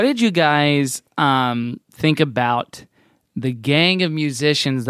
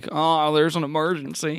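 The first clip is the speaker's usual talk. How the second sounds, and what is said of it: Impression of Kirk. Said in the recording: “That's a good impression.”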